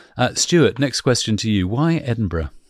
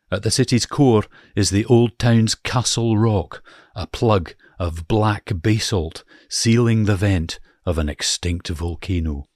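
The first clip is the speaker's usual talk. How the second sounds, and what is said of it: Put-on Scottish accent, not convincing. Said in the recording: “I was just overcome by your accent there... oh God, what an awful accent... in a Scottish accent”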